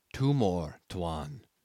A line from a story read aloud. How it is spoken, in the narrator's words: said very softly